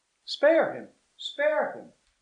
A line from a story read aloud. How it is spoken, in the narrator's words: cried the attendants